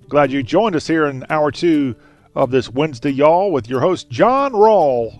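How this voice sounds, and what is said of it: Distinctive Southern American accent. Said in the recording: “Talk with a very distinctive Southern accent.”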